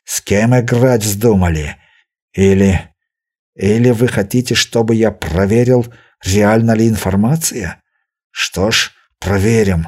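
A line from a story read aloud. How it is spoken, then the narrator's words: Angry hiss. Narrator (Russian): Берия зло прошипев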